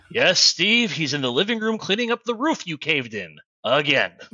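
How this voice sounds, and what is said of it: Annoyed character voice. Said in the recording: “in his annoyed voice”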